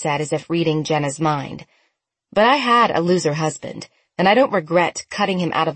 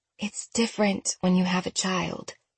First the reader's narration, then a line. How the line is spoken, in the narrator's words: Annie said softly